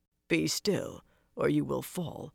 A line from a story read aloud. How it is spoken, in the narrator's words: Roland muttered